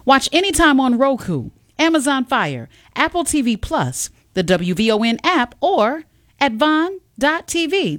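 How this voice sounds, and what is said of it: Polished radio announcer voice. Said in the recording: “you have such a radio voice”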